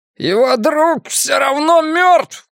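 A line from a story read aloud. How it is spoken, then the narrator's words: Shout, then groan. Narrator (Russian): крикнул плачущий льдом и невольно застонал, когда щербатый клинок чуть поерзал у его шеи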